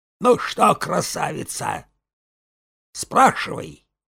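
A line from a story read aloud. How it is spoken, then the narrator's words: Very quiet, soft shivery laugh. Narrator (Russian): Александра Ивановна тихонько засмеялась, дрогнула тонкими плечами от вдруг пробежавшего по спине холодка и говорила очень тихо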